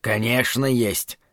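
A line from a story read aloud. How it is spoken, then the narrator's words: Angry retort. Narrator (Russian): сердито откликнулся Зарая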